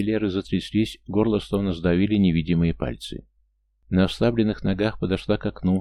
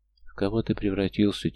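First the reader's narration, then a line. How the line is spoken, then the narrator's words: Quiet. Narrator (Russian): тихо вымолвила она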